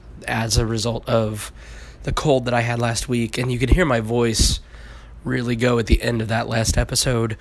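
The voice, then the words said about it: Hoarse, strained voice. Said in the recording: “my voice is still shot. I ended up getting laryngitis”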